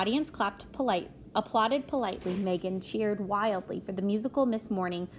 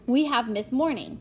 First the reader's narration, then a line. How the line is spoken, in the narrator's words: Florence boomed